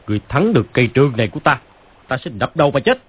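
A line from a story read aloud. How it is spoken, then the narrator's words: Angry. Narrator (Vietnamese): Phàn Nhất Ông tức giận nói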